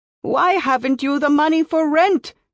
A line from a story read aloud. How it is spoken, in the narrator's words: She shouted